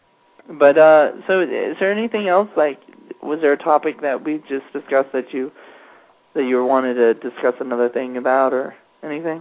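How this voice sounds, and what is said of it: Voice with a slight cold. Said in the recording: “if you can tell, I've got a little bit of a cold”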